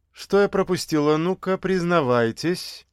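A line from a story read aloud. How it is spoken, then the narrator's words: Forced cheerful question. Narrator (Russian): Нарочито весело спросила хозяйка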